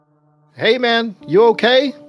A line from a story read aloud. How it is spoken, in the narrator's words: Will shouted from across the basement